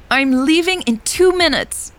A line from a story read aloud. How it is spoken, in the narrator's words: Elle yelled